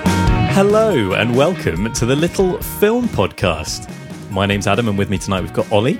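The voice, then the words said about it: Bouncy radio presenter voice. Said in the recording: “I suddenly went into my radio voice ... my radio voice is just me, but kind of bouncier.”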